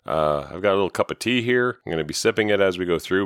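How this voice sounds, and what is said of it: Slightly off voice from a cold. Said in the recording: “I have a cold right now. So if my voice sounds a little funny or if I sound a little off”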